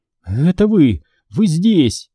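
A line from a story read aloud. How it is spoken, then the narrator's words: Sobbing. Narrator (Russian): всхлипывая, произнесла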